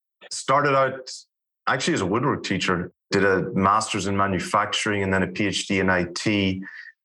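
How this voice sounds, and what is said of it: Irish accent. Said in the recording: “I'm Irish, grew up in Ireland. Accent might have been a giveaway.”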